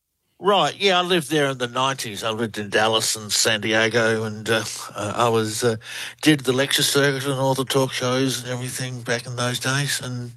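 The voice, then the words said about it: Australian accent. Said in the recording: “Australian researcher. Love the accent. ... You all have the accent, and we love it. ... You have a great one.”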